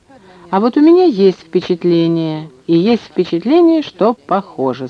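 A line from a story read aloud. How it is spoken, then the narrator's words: Plain. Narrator (Russian): сказал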